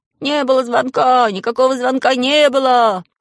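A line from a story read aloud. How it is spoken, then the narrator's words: Shouting while running. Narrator (Russian): я бегал по классу и кричал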